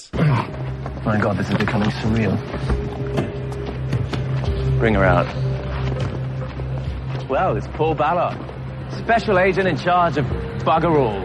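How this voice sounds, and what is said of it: Fake British accent. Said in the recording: “fake British accent”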